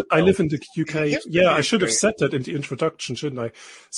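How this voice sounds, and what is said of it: German accent speaking English. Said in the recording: “I am German, as you can clearly hear by my dodgy accent”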